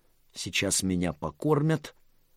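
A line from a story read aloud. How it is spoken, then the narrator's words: Delighted girl's squeak. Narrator (Russian): голова девочки восторженно пропищала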